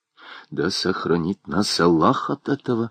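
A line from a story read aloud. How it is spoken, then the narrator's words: Fearful muttering. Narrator (Russian): бормотал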